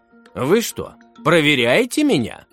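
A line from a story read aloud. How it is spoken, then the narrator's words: Laughing. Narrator (Russian): рассмеялся учитель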